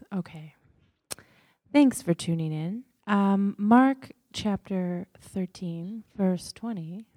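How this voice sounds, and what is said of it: Radio announcer voice. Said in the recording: “Get on my radio voice.”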